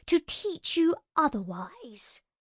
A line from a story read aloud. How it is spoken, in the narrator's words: said the Fae through his teeth